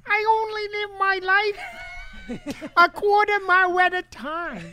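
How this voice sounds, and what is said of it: Toddler Dom Toretto impression. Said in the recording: “best toddler Toretto racer impression”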